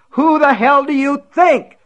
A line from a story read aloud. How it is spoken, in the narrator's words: he screamed